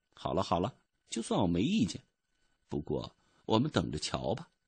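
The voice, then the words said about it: Quiet muttering voice. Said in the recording (Chinese): “小声嘟囔说”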